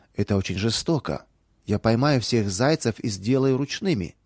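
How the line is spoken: Plain. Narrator (Russian): сказала Наташа

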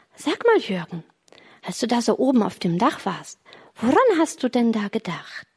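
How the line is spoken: Plain. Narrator (German): sagte Jürgen

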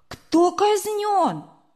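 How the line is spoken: Sudden exclamation. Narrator (Russian): вдруг Сережа воскликнул

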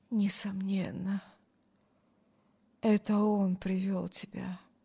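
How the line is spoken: Muttered. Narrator (Russian): пробормотал Брюс

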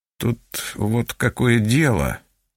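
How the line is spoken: Mumbling. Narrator (Russian): начал мямлить он

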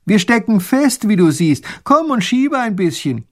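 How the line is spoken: Calling out. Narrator (German): Der kleine Großherzog ruft

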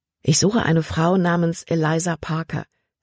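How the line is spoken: Plain. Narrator (German): sagte Caleb

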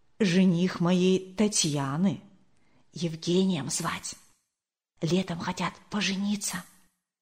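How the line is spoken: Whisper in ear. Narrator (Russian): Зинаида Кирилловна шепнула на ухо Марии Николаевне

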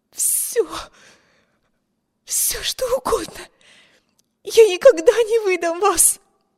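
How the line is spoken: Desperate breathless plea. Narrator (Russian): выдохнула Эми, хватаясь с жадностью утопающего за надежду на спасение

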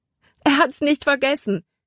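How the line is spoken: Calling out. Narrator (German): rief sie

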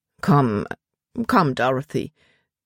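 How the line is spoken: Embarrassed murmur. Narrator (German): murmelte er, als wären ihm ihre Tränen peinlich

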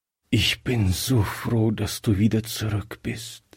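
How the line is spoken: Weak voice. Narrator (German): sagte er schwach

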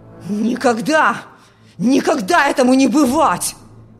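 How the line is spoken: Father shouting furiously. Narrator (Russian): В ярости кричал отец

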